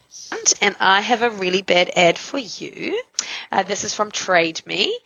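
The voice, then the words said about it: New Zealand accent. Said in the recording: “I love her accent ... She's from New Zealand”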